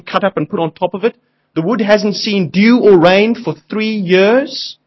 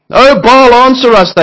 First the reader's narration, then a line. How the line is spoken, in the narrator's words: they shouted